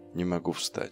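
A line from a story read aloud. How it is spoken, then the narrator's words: Barely audible whisper. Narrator (Russian): еле слышно прошептал он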